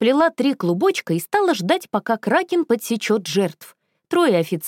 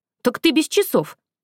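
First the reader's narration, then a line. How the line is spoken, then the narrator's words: Confused reply. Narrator (Russian): не понял Рэнди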